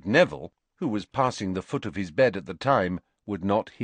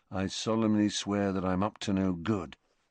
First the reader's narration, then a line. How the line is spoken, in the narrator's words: he murmured, murmuring